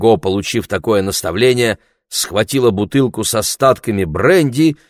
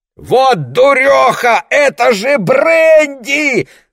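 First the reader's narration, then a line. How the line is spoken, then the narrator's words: Yelled. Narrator (Russian): завопил Лесли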